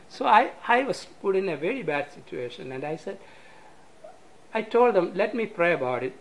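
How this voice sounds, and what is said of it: Speaks with a foreign accent. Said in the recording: “my accent”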